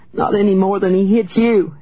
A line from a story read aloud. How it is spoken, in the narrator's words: she cried